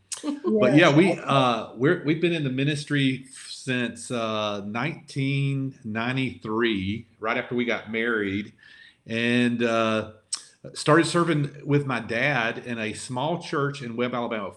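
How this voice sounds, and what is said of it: Southern Alabama accent. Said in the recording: “we're from Lower Alabama, and so our accent hurts us in some ways and helps us in some ways here”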